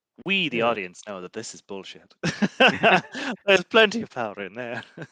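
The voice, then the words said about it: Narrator voice. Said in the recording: “In my narrator voice,”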